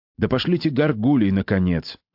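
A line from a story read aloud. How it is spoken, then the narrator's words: Irritated. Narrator (Russian): раздраженно сказал отец Торквемада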